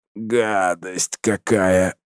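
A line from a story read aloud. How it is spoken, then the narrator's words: Moan. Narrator (Russian): простонал Арсений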